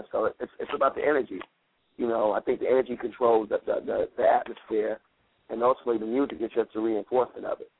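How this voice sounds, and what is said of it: Slightly hoarse voice. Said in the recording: “if you hear my voice now, I'm a little hoarse because I've been working all weekend”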